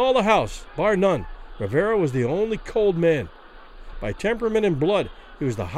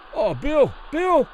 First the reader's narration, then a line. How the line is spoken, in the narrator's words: Kelly pleaded to the referee